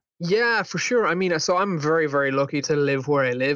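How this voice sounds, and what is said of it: Irish accent. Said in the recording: “I love your guys' accent”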